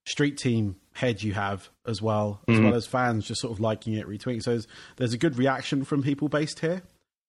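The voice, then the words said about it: English accent. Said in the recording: “as you can hear on my accent, it's a English accent... Not your typical American accent.”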